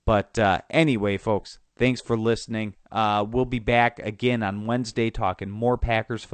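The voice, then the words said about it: Nasal, congested voice. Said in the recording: “my nasally voice here as I have a cold”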